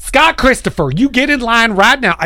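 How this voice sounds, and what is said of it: Stern teacher voice, Southern accent. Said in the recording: “my stern voice suddenly becomes, you know, like Southern ... you get the Southern accent”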